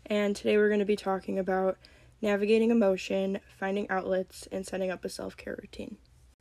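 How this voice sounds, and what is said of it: Voice sounds a little off. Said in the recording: “I have a bit of a cold, so my voice sounds a little off”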